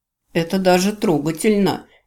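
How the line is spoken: Slightly mocking smile. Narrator (Russian): чуть насмешливо улыбнулся жене Рос

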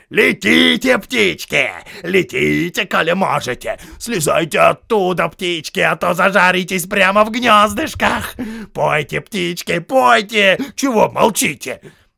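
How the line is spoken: Group shouting. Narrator (Russian): закричали

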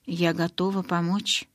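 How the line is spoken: Barely audible. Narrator (Russian): едва слышно произнесла

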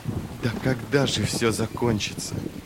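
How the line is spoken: Muttered under breath. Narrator (Russian): пробормотал Джизаль себе под нос

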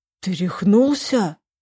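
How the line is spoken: Breathless exhale. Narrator (Russian): выдохнул Костик

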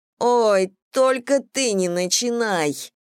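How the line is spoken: Groaning. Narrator (Russian): простонала Кэм

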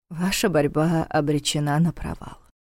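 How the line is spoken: Gentle remark. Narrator (Russian): мягко заметил Неф

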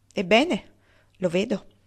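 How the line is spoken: Plain. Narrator (Italian): disse Mrs

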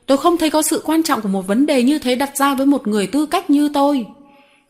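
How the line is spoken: Furious shout. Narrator (Vietnamese): Viên coi nhà thờ tím mặt hét lên

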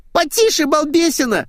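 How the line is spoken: Shrill squeal. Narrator (Russian): взвизгнула Света

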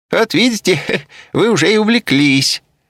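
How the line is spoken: Laughing. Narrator (Russian): засмеялся Забалуев

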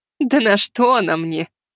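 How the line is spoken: Witch laughing. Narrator (Russian): рассмеялась ведьма

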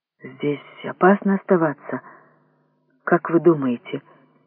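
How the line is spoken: Slightly trembling question. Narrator (Russian): чуть дрогнувшим голосом спросил вожак

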